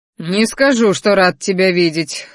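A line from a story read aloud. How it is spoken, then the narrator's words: Ruler snorting. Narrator (Russian): хмыкнул правитель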